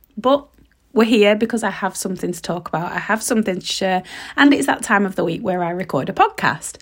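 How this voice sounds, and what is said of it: Stuffy, hoarse, partly lost voice. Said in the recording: “I hope you can tell from my voice, but I've kind of lost it ... I'm all stuffy, I've got a sore throat”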